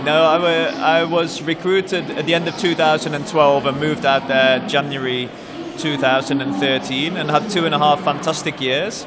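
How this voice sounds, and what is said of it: Peculiar mixed English-Dutch accent. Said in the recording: “You've got a very peculiar accent ... It's a little bit of English, a little bit of Dutch, a little bit of Qatari in there?”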